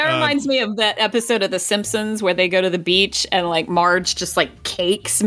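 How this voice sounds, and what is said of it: Usual voice. Nothing is said of it.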